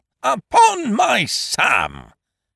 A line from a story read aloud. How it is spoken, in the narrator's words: cried Ukridge